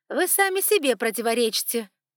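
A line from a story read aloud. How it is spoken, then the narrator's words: Snorted. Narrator (Russian): фыркнуло ее величество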